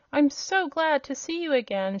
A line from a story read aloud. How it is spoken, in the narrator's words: she cried